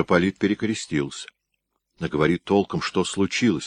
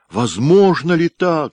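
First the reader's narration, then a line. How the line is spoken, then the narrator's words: Effortful groan. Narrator (Russian): собравшись силами простонал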